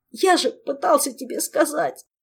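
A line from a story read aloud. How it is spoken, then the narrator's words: Sobbing. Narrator (Russian): всхлипнул Орландо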